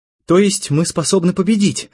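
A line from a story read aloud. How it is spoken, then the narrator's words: Joyful. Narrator (Russian): радостно сказала Надя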